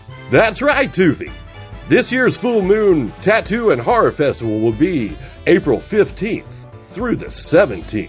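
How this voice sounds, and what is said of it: Announcer voice. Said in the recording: “announcer voice guy”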